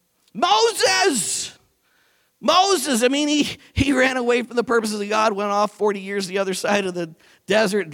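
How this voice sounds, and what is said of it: Raised, loud preaching voice. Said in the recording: “I'm not shouting, I'm just raising my voice.”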